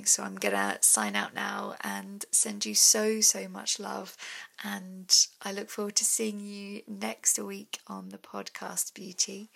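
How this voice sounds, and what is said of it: Tired, strained, fading voice. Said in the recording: “my voice is really, really starting to go now. I'm recording this quite late in the day. So yeah, my voice is definitely going.”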